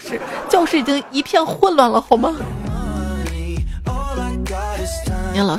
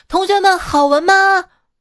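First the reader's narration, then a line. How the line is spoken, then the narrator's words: Loud shout from outside. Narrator (Chinese): 大声在门外喊道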